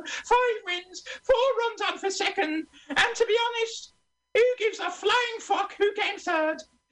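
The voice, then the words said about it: Impression of the Queen. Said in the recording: “that's the Queen doing a greyhound commentary at Balmoral ... that sounded just like the Queen”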